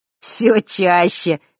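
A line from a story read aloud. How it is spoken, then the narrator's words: Sudden chuckle. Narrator (Russian): неожиданно хохотнул Ник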